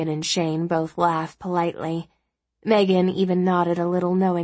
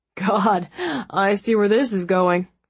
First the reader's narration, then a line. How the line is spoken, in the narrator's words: the captain said, chuckling